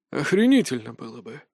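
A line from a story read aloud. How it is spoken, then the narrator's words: Mutter. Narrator (Russian): пробормотал Харитон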